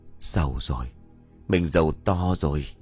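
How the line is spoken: Whispering. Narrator (Vietnamese): miệng của ông thì thầm

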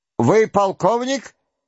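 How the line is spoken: German-accented shout. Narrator (Russian): кричал штабный начальник с немецким акцентом, знакомым князю Андрею голосом

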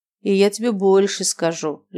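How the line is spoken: Lazy reply. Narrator (Russian): лениво ответил Виктор

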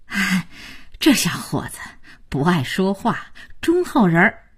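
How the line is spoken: Rambling praise. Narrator (Chinese): 刘奶奶也不着四六的胡夸

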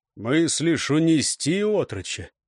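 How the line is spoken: Even-voiced question. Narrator (Russian): Ровным голосом спросил

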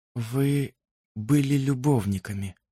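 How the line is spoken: Whisper. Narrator (Russian): прошептала она

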